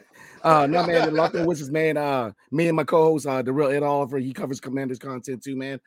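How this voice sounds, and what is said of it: Strained voice after yelling. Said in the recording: “My voice is coming back. I was yelling”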